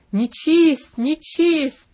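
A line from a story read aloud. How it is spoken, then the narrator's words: Widow's unnaturally harsh shout. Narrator (Russian): Вдова закричала неестественно резко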